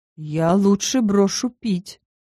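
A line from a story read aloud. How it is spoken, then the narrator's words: Moaning. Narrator (Russian): простонал Макс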